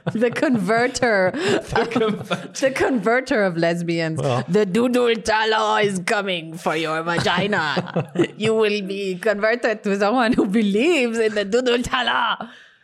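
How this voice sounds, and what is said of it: Puts on an exaggerated accent. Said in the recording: “What accent was that?”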